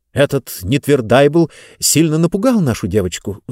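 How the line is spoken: Agitated. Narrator (Russian): взволнованно заговорил Зонталомайстер

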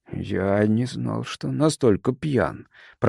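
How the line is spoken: Mumbled. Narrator (Russian): пробормотал он

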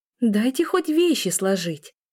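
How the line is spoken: Laughing. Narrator (Russian): Смеясь

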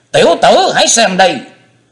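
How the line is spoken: Hungry hissing shriek. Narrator (Vietnamese): Quá Hải thần điêu miệng rít lên như quả đói

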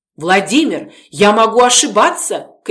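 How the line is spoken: Shouted. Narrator (Russian): крикнула я

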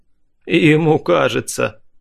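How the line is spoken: Dead man's snort. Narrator (Russian): хмыкнул мертвец

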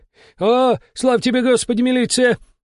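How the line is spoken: Shouting. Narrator (Russian): закричал он

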